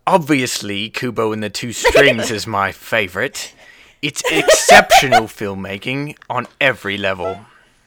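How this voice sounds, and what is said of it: Put-on British accent. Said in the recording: “could you read that in a British accent for us”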